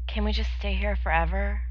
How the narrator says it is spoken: smiled sadly

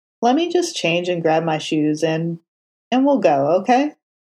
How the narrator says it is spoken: Foggy said, doing a reasonable job of keeping his tone casual

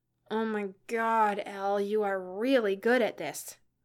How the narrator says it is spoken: groaned Kelsey

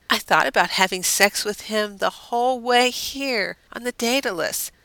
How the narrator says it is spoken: Deanna said with a dreamy sigh

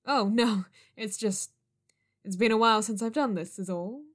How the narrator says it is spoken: he laughed nervously

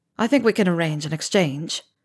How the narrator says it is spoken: Zev said dryly

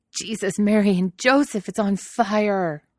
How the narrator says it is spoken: Donald howls

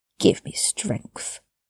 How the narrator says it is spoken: he mumbled around it

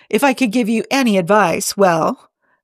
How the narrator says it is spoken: Amanda chuckled to herself

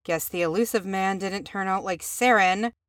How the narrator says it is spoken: she muttered

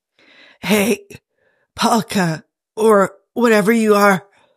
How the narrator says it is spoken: Jim tried to shout, and it came out more like a weak croak

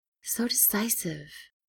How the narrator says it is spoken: he murmured

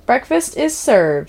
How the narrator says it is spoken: she declared cheerfully, munching on a waffle herself

